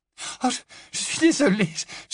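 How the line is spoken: Apologetic exclamation. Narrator (French): s'écria Hermione

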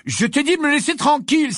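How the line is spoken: Exclaimed. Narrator (French): s'écria Harry

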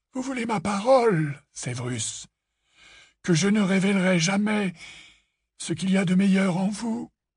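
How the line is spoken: Sigh. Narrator (French): soupira Dumbledore

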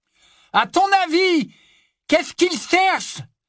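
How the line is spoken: Shouted. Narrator (French): cria Ron

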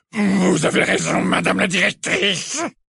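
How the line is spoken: Hissing voice. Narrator (French): répondit-il de sa voix sifflante

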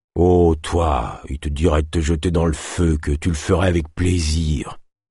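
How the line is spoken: Hissed, trapper. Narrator (French): siffla le trappeur

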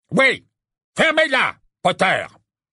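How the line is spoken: Barked. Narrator (French): aboya Fudge, qui continuait de contempler Dumbledore avec un sentiment de délice horrifié

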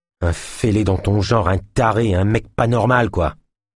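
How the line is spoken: Hissed. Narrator (French): siffla Naya

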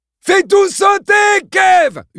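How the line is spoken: Near-demented yell. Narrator (French): hurla Mike d'une voix presque démente

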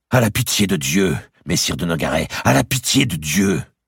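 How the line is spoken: Menacing tone. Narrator (French): lui dit-elle d'un ton de menace

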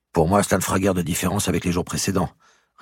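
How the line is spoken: Plain. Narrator (French): répondit Philippe Daunet

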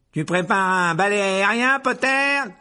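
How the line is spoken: Shouting. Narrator (French): cria Malfoy

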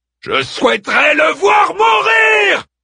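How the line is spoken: Screamed. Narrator (French): hurla Daeman

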